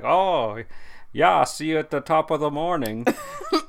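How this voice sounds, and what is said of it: Put-on Irish accent. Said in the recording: “she has like an Irish accent too”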